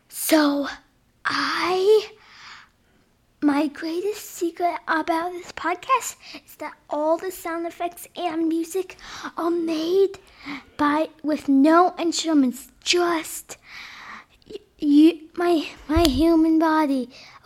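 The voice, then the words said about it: Whispering. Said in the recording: “you have to listen very close because I'm going to whisper it”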